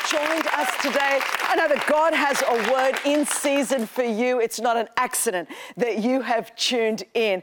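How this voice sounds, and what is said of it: Australian accent. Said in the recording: “I'm from Australia, in case you wondered what this accent is ... This is what the accent is ... this is kind of like the proper English from the colonies”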